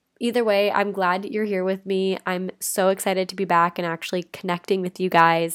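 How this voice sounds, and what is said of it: Stuffy, congested sick-sounding voice. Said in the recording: “I sound like I have an anvil on my head ... the stuffy, kind of congested sounding version of me ... a little bit more reminiscent of what it's like to be sick”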